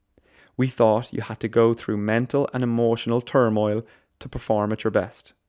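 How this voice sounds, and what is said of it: Attempted Cork accent. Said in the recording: “That's my attempt at a Cork accent.”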